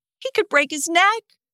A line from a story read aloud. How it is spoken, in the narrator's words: I cried